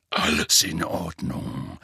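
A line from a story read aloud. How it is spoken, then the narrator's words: Murmuring. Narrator (German): murmelte er Mrs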